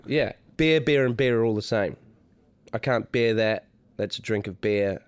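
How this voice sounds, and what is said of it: New Zealand accent. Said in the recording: “the New Zealand accent ... That's why you say bear hat.”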